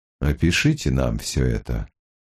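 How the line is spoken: Calm, reasoned voice. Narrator (Russian): сказал Гамаш спокойным, рассудительным голосом

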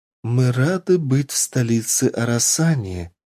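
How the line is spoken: Singsong, small creature. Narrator (Russian): нараспев произнесла самая маленькая и красивая вилла

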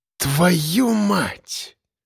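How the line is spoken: Exhaled. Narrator (Russian): выдохнул Коля

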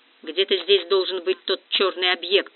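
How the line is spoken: Grumbled. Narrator (Russian): буркнул Вихров

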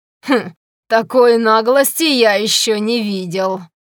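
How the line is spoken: Laughing. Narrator (Russian): Грегор рассмеялся

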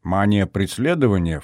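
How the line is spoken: Snorting. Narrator (Russian): фыркнул я

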